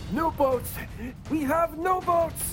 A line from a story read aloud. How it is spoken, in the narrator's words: scream